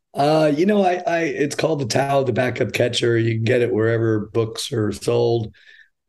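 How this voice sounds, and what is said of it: Hoarse, raspy voice. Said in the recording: “your voice is a little stripped there ... I'm about to go Louis Armstrong on you”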